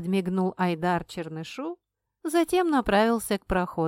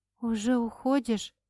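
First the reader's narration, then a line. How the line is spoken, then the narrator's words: Bewildered breathy exhale. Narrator (Russian): выдохнула растерянно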